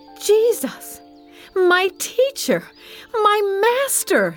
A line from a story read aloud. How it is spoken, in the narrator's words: she cried